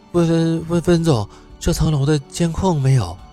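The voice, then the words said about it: Quiet, hesitant low reply. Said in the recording (Chinese): “低下头，小声的回复，却让所有的人都能听清楚”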